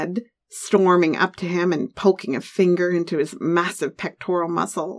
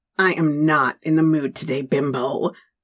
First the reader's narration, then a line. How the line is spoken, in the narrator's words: he growled back